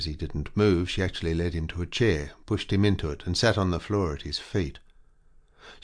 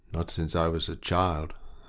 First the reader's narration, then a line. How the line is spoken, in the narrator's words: answered Rael in a sombre tone